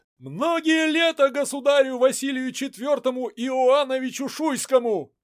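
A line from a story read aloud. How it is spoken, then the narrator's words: Shouted. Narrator (Russian): прокричал Андрей Васильевич Голицын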